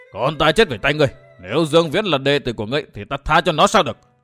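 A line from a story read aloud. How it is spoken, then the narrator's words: Angry shout. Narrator (Vietnamese): Nam Hung cả giận hét to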